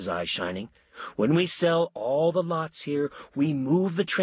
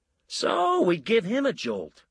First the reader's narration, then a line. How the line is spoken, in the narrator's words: Lou said brightly